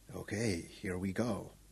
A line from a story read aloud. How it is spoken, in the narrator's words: He took a full breath and said softly